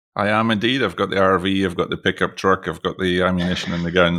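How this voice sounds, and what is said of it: Scottish accent. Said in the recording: “Most of you can probably tell from my Scottish accent”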